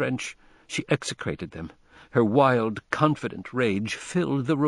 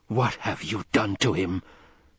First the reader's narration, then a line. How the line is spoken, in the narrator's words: she whispered so fiercely that they flinched before her gathering fury